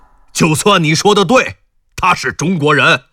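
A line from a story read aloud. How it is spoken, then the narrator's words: Furious shouting. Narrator (Chinese): 才又暴跳如雷的大喊道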